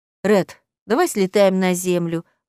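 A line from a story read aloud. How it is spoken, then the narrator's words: Asking. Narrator (Russian): попросила Зоя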